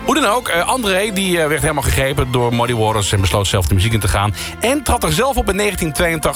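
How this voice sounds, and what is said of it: Usual voice. Nothing is said of it.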